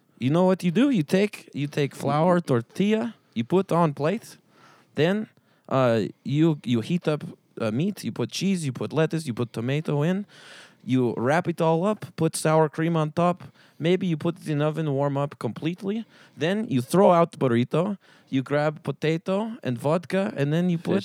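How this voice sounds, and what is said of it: Put-on Russian accent. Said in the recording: “how you make a taco in Russia? You're better at the accent than I am”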